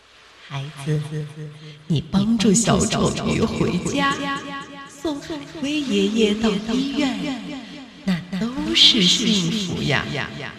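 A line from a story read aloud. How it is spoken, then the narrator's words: Gentle. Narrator (Chinese): 海神温柔的对他说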